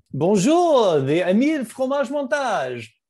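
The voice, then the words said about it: Attempted French accent. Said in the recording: “I don't even know what kind of an accent that was. It wasn't even French. ... That's a little better.”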